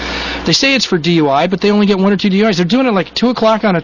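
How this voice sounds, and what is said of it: Usual voice. Nothing is said of it.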